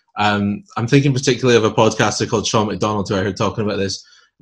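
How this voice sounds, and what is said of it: Scottish accent. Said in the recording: “I'm Scottish myself, and you might have guessed from the accent”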